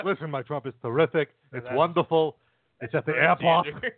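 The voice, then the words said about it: Trump impression sounding like Bernie Sanders. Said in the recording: “your guys' Trump's impressions ... You guys just sound like really confident rabbis ... You sound like that's Bernie Sanders. That's confident Bernie Sanders”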